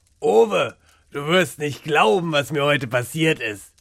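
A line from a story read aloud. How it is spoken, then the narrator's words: Enthusiastic call. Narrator (German): rief er begeistert, als er den Raum betrat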